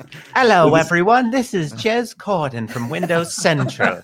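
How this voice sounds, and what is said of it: Bad stereotypical British accent impression. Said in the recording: “do an impression of Jez ... I can't do a good UK accent ... I can do a really bad stereotypical Mrs. Doubtfire one”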